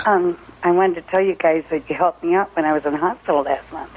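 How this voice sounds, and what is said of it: Hoarse, strained voice. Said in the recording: “I've got laryngitis.”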